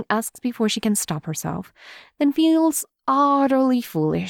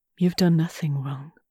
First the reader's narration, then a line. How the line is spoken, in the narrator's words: Lenten says quietly